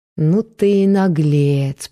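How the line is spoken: Drawling. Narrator (Russian): протянула она

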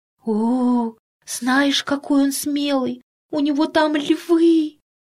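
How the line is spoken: Whispered reply. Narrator (Russian): Тоже шепотом ответила Тома

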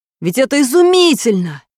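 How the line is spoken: Bird's excited exclamation. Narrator (Russian): воскликнул камышовка

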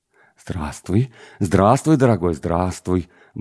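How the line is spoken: Muttering between kisses. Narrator (Russian): бормотал Дмитрий Павлович между поцелуями

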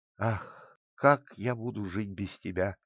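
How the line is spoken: Sad sighing. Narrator (Russian): печально вздыхал Генрих

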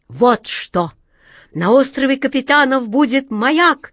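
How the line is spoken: Joyful exclamation. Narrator (Russian): радостно воскликнул волшебник Алёша

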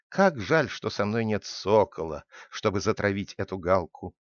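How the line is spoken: Sighing. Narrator (Russian): вздохнул Удо

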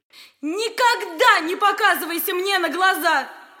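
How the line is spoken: Shouting. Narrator (Russian): крикнула она старику

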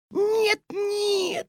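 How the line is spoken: Squeaked. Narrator (Russian): запищала госпожа Жадность

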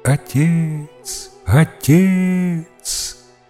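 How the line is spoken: Abandoned child repeatedly crying out. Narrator (Russian): то и дело кричал покинутый ребенок

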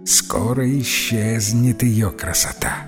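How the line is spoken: Barely audible mutter. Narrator (Russian): еле слышно пробормотала в полголоса

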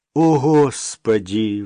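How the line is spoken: Sigh. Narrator (Russian): вздохнул Максим

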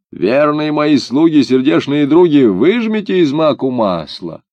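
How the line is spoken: Old woman shouting. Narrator (Russian): Старуха крикнула

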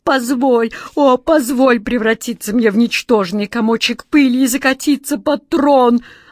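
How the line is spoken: Desperate wail. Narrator (Russian): отчаянно взвыл Джин

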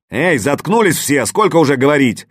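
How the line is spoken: Sudden yell. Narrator (Russian): Неожиданно заорал помдеж

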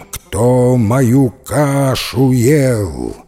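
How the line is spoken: Angry bear's loud, rough roar. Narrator (Russian): Рассердился медведище и заревел громким, грубым, страшным голосищем

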